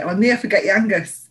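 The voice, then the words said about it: Bad put-on Scottish accent. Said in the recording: “That was a really terrible Scottish accent”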